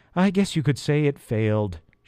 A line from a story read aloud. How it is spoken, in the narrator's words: she replied sadly